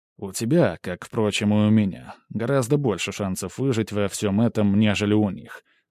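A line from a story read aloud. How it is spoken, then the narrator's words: Calm. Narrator (Russian): спокойно ответил я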